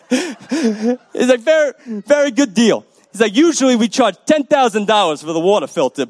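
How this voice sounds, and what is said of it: Italian accent drifting into Russian. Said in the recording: “I feel like my Italian accent is turning into a Russian accent,”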